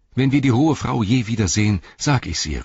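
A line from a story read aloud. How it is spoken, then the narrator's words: Called out. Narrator (German): rief er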